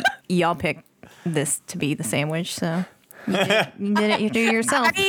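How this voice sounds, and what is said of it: Usual voice. Nothing is said of it.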